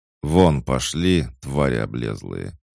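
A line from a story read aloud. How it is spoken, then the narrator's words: Spoken through clenched teeth. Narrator (Russian): процедил я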